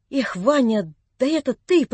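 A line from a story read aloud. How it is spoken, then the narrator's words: Unsteady voice. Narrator (Russian): проговорил он неровным голосом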